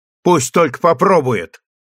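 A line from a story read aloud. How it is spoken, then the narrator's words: Sharp cutting reply. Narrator (Russian): резко оборвала Партинье размечтавшуюся дочь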